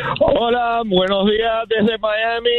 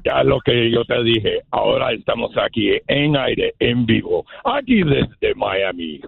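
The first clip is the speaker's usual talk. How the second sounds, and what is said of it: Batman character voice. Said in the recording (Spanish): “¡Haz la voz de Batman! ... ¡Igualito! ¡Igualito! ... idéntico”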